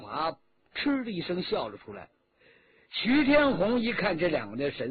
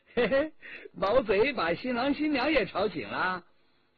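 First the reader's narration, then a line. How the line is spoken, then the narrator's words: Cheerful, smiling. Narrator (Chinese): 魏春华笑吟吟的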